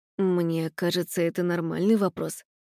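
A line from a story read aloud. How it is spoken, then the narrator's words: Embarrassed mutter. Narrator (Russian): пробормотал Костя смущенно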